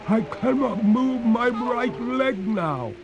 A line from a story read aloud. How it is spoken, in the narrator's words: cried the ghost in despair